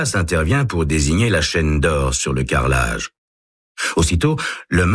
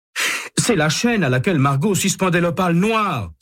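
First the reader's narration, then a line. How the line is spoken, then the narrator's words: Exclaiming. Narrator (French): s'écrie-t-il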